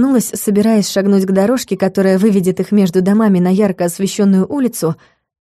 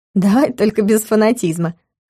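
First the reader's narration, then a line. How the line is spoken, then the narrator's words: Laughing female voice. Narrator (Russian): рассмеялась Юля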